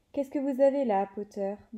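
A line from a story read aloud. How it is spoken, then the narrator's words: Plain question. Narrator (French): demanda-t-il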